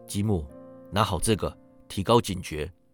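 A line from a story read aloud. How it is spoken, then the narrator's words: Low voice. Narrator (Chinese): 他低声道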